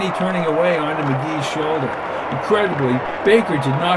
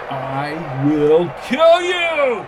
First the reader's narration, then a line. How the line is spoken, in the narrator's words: shouted McGee through the crowd's roar